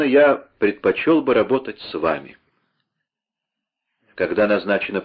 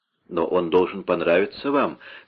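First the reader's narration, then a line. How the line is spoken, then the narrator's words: Plain. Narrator (Russian): сказал да Понте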